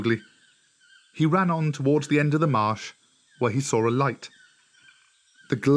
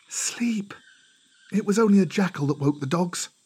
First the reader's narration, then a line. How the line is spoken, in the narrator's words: the woman whispered